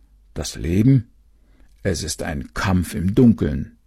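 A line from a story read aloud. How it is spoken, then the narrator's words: Grumbling mole. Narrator (German): streckte auch der Maulwurf seinen Kopf aus der Erde und brummte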